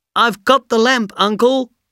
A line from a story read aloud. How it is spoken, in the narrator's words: he shouted